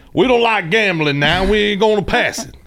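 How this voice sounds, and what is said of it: Exaggerated Southern accent. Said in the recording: “he's gonna sound play it up a little bit. Southern?”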